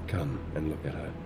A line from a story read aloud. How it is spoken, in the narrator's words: I said to him softly